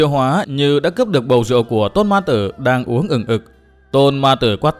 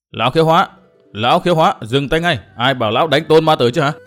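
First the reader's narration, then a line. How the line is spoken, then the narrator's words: Loud shout. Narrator (Vietnamese): tiếng Hầu Nhị quát to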